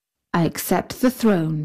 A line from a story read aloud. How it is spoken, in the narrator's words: said Suleiman